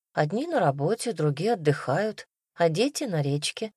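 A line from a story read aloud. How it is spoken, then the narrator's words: Plain. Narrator (Russian): ответила мать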